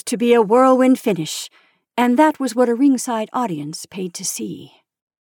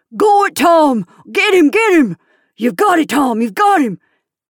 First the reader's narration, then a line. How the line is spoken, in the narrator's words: nearly every voice yelling